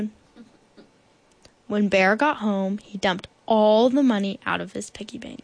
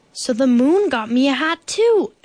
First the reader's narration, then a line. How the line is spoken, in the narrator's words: exclaimed Bear